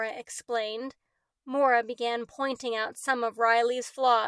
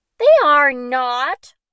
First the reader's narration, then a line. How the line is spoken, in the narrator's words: Riley snapped